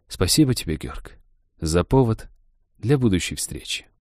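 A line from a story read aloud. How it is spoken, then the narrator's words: Sad, smiling. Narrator (Russian): Королева Виерды грустно улыбнулась и произнесла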